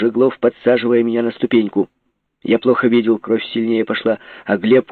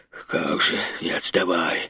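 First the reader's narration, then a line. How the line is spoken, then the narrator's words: Muttered. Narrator (Russian): бормотнул Копырин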